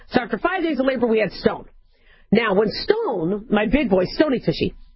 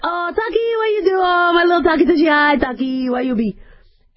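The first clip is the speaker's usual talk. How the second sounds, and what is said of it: Put-on accent talking to kids. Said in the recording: “when I talk to the kids, it's always with an accent ... an accent comes out”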